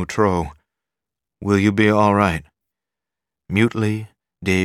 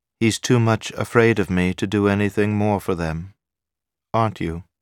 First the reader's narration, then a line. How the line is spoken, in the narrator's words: She said to Moutreau in the same inert, neutral tone